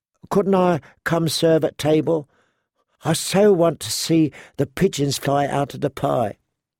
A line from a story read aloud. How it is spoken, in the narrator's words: said Shay wistfully